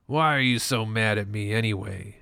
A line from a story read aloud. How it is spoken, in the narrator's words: rasps, his voice getting a little higher